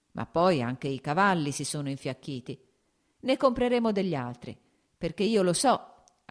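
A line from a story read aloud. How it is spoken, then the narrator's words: Laughing. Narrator (Italian): aggiunse ridendo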